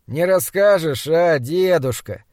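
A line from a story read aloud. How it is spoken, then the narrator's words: Sleepy voice. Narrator (Russian): сонным голосом проговорил подмастерье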